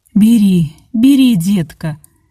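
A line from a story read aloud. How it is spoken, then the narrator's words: Laughing. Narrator (Russian): смеялась Антонина Степановна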